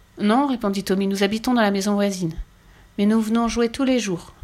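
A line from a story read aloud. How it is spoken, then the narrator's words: Timid. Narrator (French): ajouta timidement Annika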